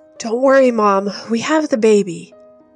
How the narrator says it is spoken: tell her breathlessly

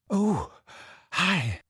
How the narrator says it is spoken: she said breathlessly

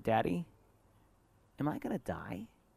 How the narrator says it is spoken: in her little tiny voice, coming out of this little tiny person with so much blood dripping all over their body, she said

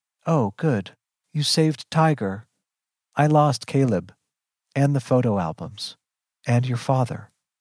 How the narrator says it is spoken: She says flatly

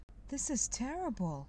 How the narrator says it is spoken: I exclaimed

